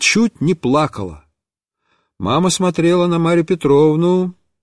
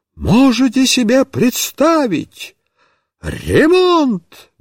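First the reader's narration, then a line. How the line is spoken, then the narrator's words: Exclaimed. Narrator (Russian): воскликнула Марья Петровна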